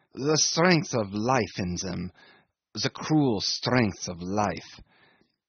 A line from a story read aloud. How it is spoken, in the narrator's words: he mumbled